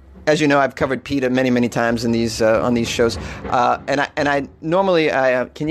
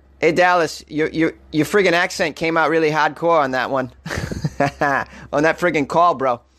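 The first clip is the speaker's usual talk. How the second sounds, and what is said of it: Exaggerated Boston accent. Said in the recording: “Let me give you some of my accent. Hey, my Boston accent.”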